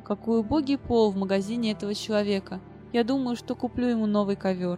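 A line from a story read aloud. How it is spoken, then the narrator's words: Sighing. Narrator (Russian): мастер он вздохнул и сказал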